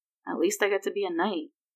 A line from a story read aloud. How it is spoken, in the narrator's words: he mumbled